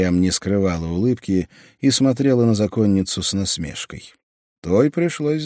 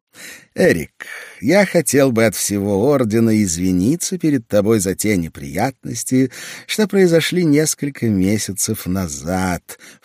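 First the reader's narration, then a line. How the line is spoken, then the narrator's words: Ingratiating, smooth. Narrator (Russian): вкрадчиво произнес он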